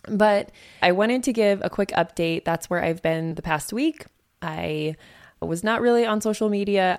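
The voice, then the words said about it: Hoarse, strained voice. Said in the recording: “I'm also kind of losing my voice.”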